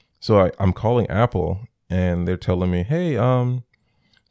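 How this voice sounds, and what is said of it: Usual voice. Nothing is said of it.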